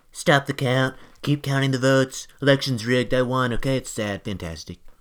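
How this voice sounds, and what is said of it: Impression of a politician. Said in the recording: “a great impersonation”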